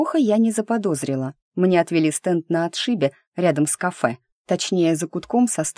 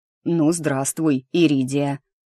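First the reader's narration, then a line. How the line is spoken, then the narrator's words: Deep voice after cough. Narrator (Russian): кашлянув пробасил кто-то у меня за спиной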